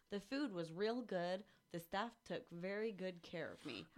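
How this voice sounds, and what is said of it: Light put-on southern accent. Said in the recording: “I could not help but read that in a southern accent... A very light one. I tried not to.”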